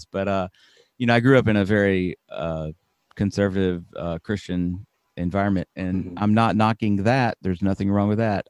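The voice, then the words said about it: Slight Alabama Southern accent. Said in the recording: “I grew up in Alabama. You might be able to hear a little bit of my accent. I try to turn it down. ... I try to turn the volume down on my accent a little bit”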